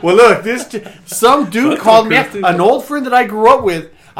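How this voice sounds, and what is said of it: El Paso accent. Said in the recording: “you have that you have that accent. It's an El Paso accent.”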